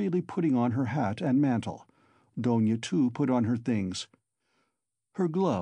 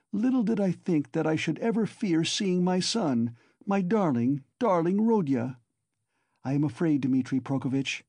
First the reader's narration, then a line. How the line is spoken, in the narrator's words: she added, glancing at him timidly